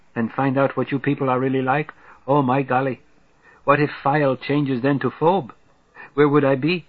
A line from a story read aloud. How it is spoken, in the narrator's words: He giggles